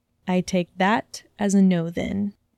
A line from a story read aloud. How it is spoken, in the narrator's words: Draco said calmly